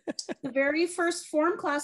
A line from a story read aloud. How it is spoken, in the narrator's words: I cried